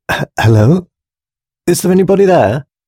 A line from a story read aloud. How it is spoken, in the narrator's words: called Susan nervously